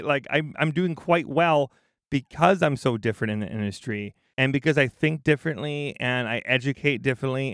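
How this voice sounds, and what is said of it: Wisconsin regional American accent. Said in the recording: “this is a woman from Wisconsin. You don't get that accent from anywhere else.”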